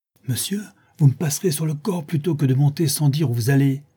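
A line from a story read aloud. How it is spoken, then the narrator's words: Exclaimed. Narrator (French): s'écria Madame Pipelet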